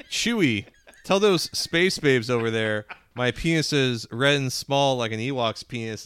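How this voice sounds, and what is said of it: Flat deadpan delivery. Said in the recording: “It was this really deadpan. This is really deadpan.”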